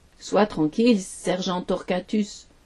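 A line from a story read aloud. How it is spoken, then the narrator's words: Plain reply. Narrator (French): répondit Pierrot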